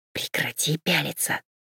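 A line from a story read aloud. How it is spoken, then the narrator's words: Hissed. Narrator (Russian): прошипела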